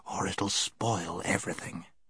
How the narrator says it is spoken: whispered Scrub

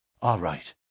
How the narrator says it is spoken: whispered McMurdo

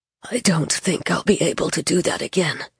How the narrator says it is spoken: he said hoarsely

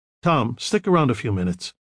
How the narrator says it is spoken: Michael said sharply

